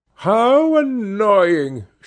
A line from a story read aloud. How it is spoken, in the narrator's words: she cried